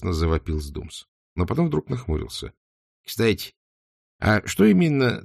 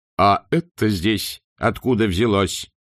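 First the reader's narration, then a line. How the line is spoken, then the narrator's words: Loud question. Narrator (Russian): громко вопросил он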